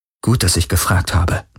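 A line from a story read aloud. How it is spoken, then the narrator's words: Murmured. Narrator (German): murmelte Kirai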